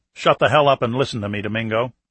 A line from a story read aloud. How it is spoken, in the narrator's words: Clark said harshly